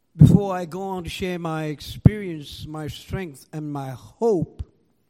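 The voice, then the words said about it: Foreign accent. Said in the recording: “I have an accent”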